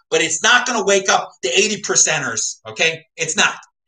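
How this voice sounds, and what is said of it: Screaming. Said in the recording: “you can scream like I'm screaming right now”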